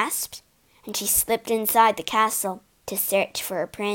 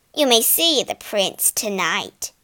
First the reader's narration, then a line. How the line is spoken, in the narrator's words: she snapped